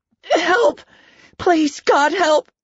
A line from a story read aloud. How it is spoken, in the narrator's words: Laura screamed